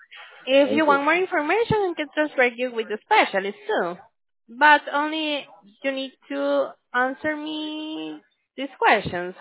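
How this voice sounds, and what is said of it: Foreign accent. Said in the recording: “what's the accent? ... My accent is from another country”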